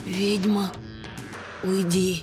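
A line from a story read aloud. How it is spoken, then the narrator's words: Unexpectedly quiet plea. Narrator (Russian): Неожиданно тихо попросила графиня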